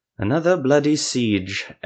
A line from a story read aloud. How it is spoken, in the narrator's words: Ethramel sighed